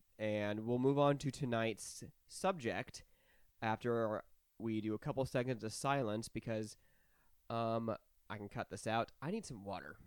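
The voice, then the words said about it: Scratchy, raspy voice. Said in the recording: “You can clearly hear my throat's very scratchy. ... You're a little raspy boy.”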